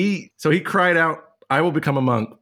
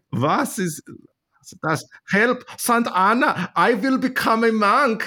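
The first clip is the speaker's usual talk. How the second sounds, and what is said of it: Poor put-on German accent. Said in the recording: “what is a German accent like? ... I can't do a German accent ... really ... Bad”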